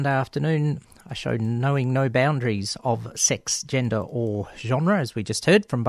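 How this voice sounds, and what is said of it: Usual voice. Nothing is said of it.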